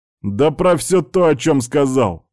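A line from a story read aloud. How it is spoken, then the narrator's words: Barked, barely restrained. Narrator (Russian): рявкнул тот, с трудом сдерживаясь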